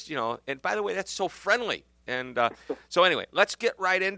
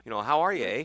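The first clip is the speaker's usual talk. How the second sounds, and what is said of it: Put-on Canadian accent. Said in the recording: “What do you think, you're Canadian? ... I pick up the accent, and occasionally I drop the A at the end.”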